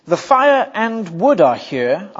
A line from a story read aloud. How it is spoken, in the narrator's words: Isaac said